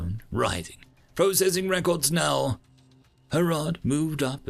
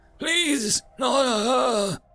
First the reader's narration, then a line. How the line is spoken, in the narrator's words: he moaned